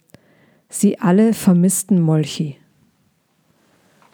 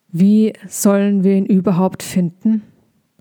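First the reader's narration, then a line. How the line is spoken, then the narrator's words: Cheeky voice. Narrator (German): fragte Balbi mit seiner frechen Stimme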